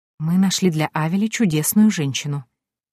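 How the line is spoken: Quiet. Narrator (Russian): тихо заговорила она

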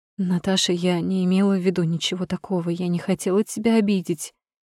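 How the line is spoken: Trembling whisper. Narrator (Russian): шепчет дрожащим голосом

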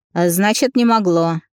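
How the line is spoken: Snapping retort. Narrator (Russian): огрызнул сон

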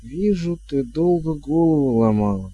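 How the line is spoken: Slow, carefully chosen words. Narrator (Russian): медленно проговорила нянюшка Як, тщательно подбирая каждое слово

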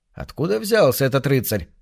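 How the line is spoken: Group grumbling. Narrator (Russian): ворчали они

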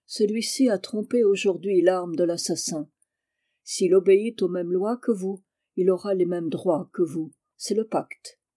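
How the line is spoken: Firm, slow voice. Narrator (French): prononça-t-elle d'une voix ferme et lente

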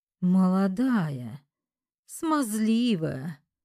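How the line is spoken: Mocking drawl. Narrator (Russian): Издевательски протянула я

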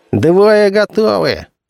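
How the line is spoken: Laughing. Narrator (Russian): рассмеялся Гали

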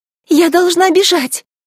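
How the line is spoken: Frightened cry. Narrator (Russian): испуганно вскрикнула Элла

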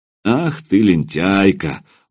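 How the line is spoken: Affectionate. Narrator (Russian): ласково проговорил Илья

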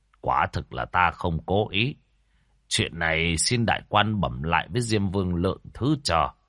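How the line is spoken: Sighing. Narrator (Vietnamese): thở dài nói

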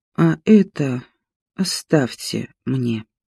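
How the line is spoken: Weak, uncertain voice. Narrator (Russian): она каким-то абсолютно интуитивно, не слишком понимая, зачем и, в общем-то, о чем, сказала слабым голосом

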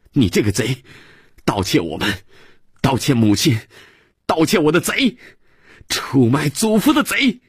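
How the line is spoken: Child's angry shout. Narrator (Chinese): 克里斯朵夫……孩子……仰着脸气哼哼地又喊

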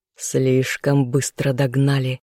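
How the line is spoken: Growled. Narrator (Russian): прорычал я

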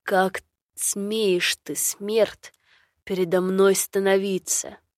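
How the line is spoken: Angry growl. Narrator (Russian): Со злостью прорычал ворон

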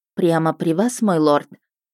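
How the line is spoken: Forced out, strained. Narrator (Russian): Выдавила из себя

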